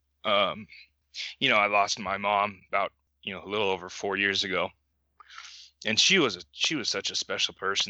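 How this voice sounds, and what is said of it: Emotional, choked-up voice. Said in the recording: “I'm going to probably get a little emotional here.”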